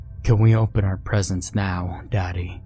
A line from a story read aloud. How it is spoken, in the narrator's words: she asked again, her voice deeper than I remembered, with none of the joy or light she had when she was alive